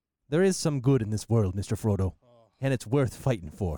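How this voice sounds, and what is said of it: Samwise Gamgee impression, hobbit accent. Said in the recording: “your impression is kicking in here ... It's not good ... It's good enough ... It is Samwise. Samwise Gamgee ... It's the accent”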